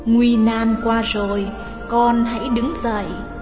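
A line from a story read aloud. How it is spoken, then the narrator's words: Gentle motherly whisper. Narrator (Vietnamese): Sư Thái Tịnh Huyền nói sẽ vào tai chàng bằng giọng ôn nhu như mẹ hiền nói với con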